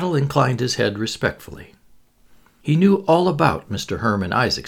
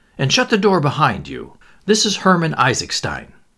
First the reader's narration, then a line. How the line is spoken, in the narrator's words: said Lomax irritably